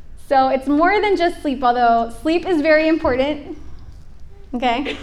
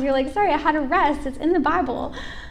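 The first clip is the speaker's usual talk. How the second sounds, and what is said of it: Country accent. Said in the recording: “my country accent just slipped out”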